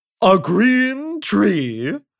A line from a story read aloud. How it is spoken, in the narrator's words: exclaimed the king